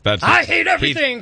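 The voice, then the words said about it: Impression of radio host Span. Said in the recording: “should I do like a Span impersonation? ... that's pretty accurate.”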